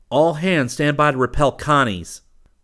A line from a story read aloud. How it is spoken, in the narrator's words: Rip shouted